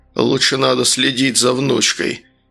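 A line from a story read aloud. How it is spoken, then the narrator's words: Growled. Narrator (Russian): прорычал отец Дианы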